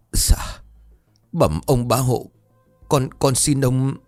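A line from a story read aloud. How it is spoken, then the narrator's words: Trembling broken voice. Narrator (Vietnamese): Anh Tư Nghĩa giọng run rẩy đứt quãng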